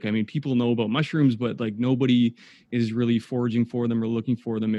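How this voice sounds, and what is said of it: Canadian accent. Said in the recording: “you are from Canada. I could tell just by the accent”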